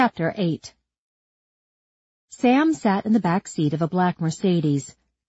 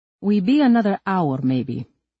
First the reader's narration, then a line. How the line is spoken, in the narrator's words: Stanislav, the driver, relayed in his thick Croatian accent